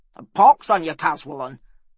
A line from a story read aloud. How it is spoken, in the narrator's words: snapped Bordrick